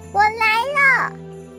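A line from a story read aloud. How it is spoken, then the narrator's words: Little brother's happy shout. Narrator (Chinese): 弟弟开心的大喊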